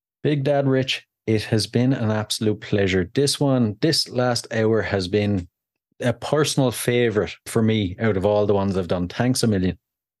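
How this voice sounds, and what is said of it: Irish accent. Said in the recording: “that Irish tone and, you know, the Irish accent”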